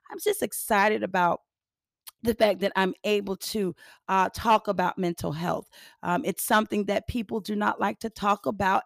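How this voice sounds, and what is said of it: Raspy, hoarse worn-out voice. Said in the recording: “I am a little raspy and I'm a little hoarse because I sung all weekend long ... this voice is shot all the way out ... my hoarseness”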